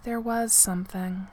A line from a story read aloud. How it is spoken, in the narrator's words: Eska said softly